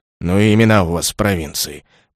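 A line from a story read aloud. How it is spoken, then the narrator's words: Grumbling under breath. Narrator (Russian): пробурчал под нос начальник караула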